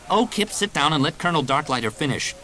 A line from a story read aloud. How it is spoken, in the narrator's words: Jaina snapped